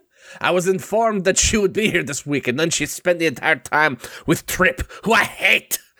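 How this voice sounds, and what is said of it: Exaggerated cartoon French accent. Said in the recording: “An elaborate French accent ... this outrageous accent ... That's a pretty good cartoon French accent.”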